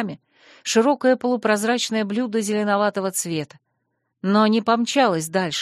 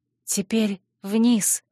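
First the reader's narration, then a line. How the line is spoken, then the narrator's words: Whispered. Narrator (Russian): шепнула я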